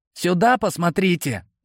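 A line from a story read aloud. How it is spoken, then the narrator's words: Stifled exclamation. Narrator (Russian): сдавленно воскликнул Кипли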